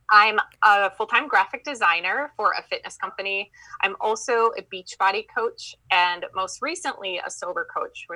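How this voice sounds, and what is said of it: Minnesotan accent. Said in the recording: “I have that Minnesotan accent”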